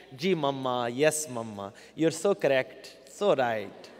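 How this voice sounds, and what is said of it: English in a desi accent. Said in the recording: “they would start to speak English in a desi accent.”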